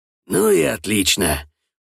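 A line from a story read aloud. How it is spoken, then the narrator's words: Satisfied grunt. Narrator (Russian): удовлетворенно хмыкнул Дмитрий Иванович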